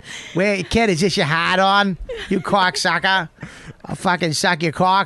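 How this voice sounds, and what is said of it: Exaggerated Everett Massachusetts accent. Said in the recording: “a dumb Pollock from Everett, Massachusetts, with a shitty accent”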